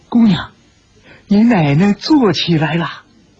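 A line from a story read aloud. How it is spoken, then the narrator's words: Trembling frightened voice. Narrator (Chinese): 心中是砰砰的乱跳，颤声说道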